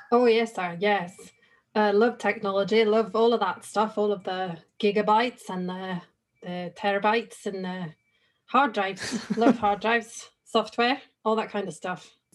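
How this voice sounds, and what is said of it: Scottish accent. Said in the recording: “interesting accent too. You're from... I'm from Scotland, sir.”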